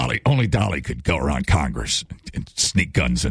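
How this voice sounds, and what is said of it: Usual voice. Nothing is said of it.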